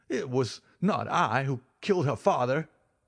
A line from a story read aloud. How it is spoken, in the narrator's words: he cried